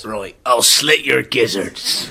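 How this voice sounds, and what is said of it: Gruff pirate character voice. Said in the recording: “going to do the voices? I thought we were going to do the voices. ... The voice. ... do a voice”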